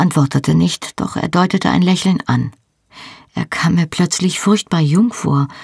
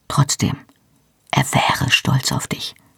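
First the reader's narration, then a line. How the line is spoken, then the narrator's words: Quiet. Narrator (German): sagte dann leise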